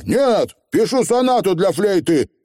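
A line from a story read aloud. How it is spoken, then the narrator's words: Barked retort. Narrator (Russian): рявкнул в ответ Роланд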